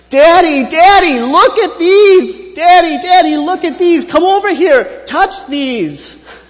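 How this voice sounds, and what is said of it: Loud shouting child's voice. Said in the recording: “in his loudest outdoor voice, like he's at a sporting event”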